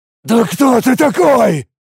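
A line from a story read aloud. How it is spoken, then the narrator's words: Terrified shout. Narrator (Russian): С ужасом в голосе выкрикнул Тарак, не понимая, что происходит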